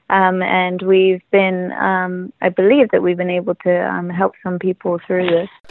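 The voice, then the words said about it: Non-native accent, not Israeli. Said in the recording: “Based on your accent, you're not a native Israeli.”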